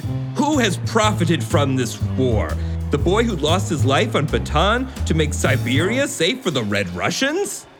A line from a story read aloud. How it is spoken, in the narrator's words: he shouted